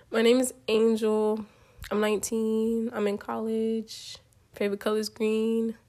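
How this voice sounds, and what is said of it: Congested, slightly off voice from cold. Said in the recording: “If my voice sounds a little weird ... I'm getting over a cold and my allergies are acting up. So my voice doesn't always sound like this”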